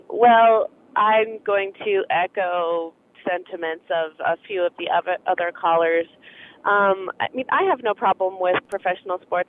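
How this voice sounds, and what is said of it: Slightly congested voice from a cold. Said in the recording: “I have a little cold.”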